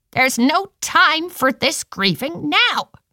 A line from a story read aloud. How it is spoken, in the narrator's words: she hissed at them